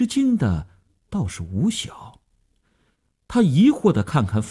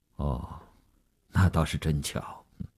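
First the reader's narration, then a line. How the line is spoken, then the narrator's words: Flat, indifferent. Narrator (Chinese): 吴长天淡淡地说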